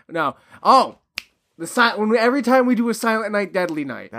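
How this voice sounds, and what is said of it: Usual voice. Nothing is said of it.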